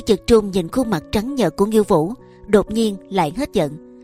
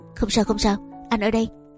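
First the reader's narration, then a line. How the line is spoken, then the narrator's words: Soft soothing comfort. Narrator (Vietnamese): Hứa Dực Trung hơi quảng khẽ dỗ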